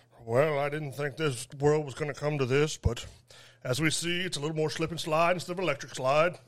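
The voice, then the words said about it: Morgan Freeman narrator impression. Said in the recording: “Morgan Freeman narrating the thoughts of a man who pooped his pants on a dance floor.”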